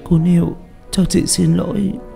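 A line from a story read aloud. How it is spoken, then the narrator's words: Crying. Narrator (Vietnamese): Uyên khóc lóc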